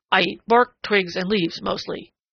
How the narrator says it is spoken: grunted Prickly Porky ungraciously

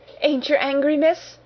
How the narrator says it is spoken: she gasped

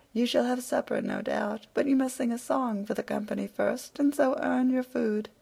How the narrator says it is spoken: The alderman laughed again at this shrewd answer and said

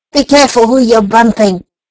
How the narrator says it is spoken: snarled the rat

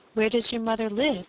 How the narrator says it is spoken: asked the squire in a kindly tone, for he had already forgiven Little Boy Blue

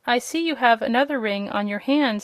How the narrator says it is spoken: said Rosalie

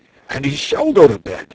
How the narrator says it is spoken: cried the dragon

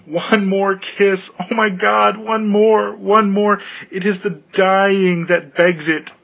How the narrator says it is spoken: she cried

